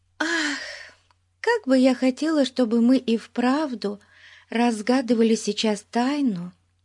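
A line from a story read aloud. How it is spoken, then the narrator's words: Wistful sigh. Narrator (Russian): вздохнула Бетси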